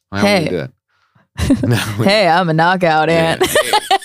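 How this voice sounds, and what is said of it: Put-on accent, silly voice. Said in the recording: “What accent was that? ... I have so many of them ... the voices I would do”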